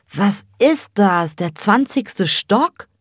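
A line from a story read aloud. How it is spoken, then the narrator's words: Excited breathless crowing. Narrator (German): kräht Cem aufgeregt und völlig außer Atem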